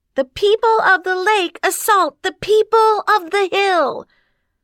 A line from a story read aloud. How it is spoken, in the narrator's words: Diamond yelled